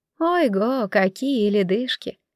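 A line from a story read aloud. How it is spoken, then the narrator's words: Muttering. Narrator (Russian): Мать бормоча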